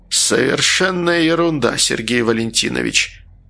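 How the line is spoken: Hoarse voice. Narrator (Russian): ответил он хриплым голосом

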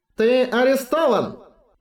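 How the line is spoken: Loud, triumphant. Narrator (Russian): Голос Джейлера звучал так громко, словно он уже победил

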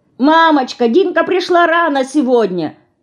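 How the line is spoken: Hurried shout. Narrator (Russian): успевает она крикнуть

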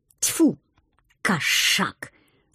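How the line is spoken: Angry hiss. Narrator (Russian): зло прошипела я

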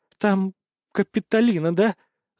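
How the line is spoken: Trembling small voice asking. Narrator (Russian): дрожащим голоском спросила Веснушка

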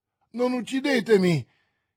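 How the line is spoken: Bandit exclaiming. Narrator (Italian): esclamò il bandito

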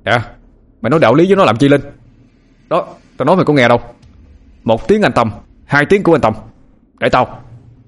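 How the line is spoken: Screaming. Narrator (Vietnamese): Tâm gào lên

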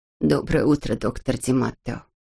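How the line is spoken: Quiet. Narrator (Russian): тихо сказала Нина

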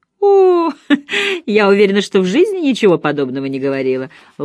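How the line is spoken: Laughing. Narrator (Russian): Лола засмеялась

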